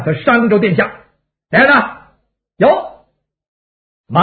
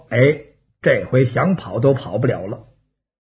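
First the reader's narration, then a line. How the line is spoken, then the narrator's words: Quiet. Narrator (Chinese): 王霸小声说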